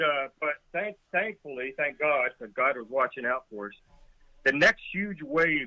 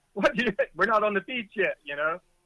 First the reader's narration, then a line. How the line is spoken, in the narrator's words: yelling